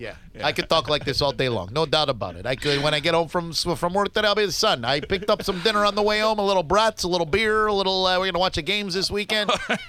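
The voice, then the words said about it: Put-on regional accent. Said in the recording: “You could do that accent all day, couldn't you?”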